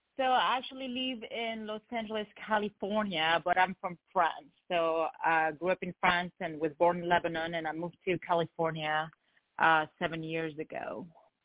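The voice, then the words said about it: French accent. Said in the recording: “So you're from France. I can tell by the accent.”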